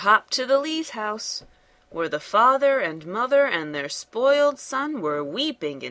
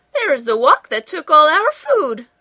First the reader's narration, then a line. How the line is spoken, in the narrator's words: cried Mrs